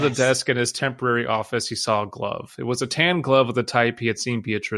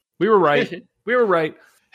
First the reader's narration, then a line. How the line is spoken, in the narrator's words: yell